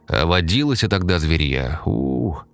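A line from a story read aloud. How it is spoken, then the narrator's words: Drawling. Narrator (Russian): протянул Егор Михайлович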